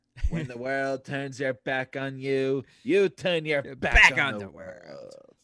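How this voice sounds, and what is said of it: Weak Nathan Lane impression as Timon. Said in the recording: “Do Timon. Do some Timon, because that's Nathan Lane. ... You got to work on your Nathan Lane a little bit.”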